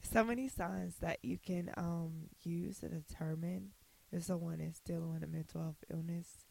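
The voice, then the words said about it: Voice giving out, strained. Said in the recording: “oh my God, I'm losing my voice.”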